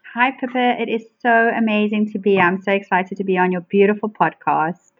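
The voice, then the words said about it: South African accent. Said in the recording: “I love your accent, for that's a definite. I absolutely love your South African accent.”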